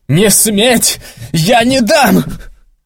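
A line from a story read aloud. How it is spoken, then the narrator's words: Excited shouting. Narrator (Russian): азартно закричал он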